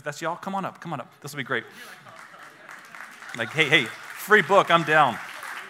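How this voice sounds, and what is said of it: Southern redneck accent. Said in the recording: “my redneck accent”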